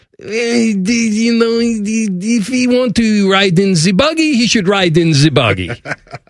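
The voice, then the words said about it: Imitated French accent. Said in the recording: “in this great French accent”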